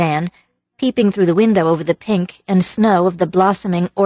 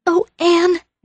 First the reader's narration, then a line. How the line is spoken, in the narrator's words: gasped Diana